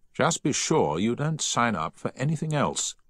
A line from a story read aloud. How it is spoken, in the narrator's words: he said firmly